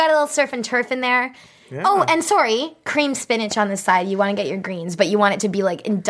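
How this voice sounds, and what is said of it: Usual voice. Nothing is said of it.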